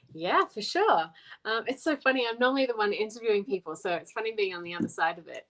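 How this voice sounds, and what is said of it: Australian accent. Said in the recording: “I'm originally from Australia, as you can tell by the accent”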